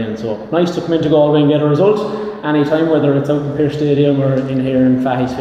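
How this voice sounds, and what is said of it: Local regional accent. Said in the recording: “once they heard the accent, they knew I was fairly local”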